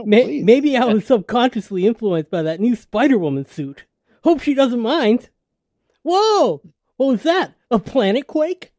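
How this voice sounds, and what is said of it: Peter Parker character voice. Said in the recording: “in my Peter Parker voice.”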